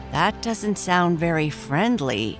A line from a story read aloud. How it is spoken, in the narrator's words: Esther said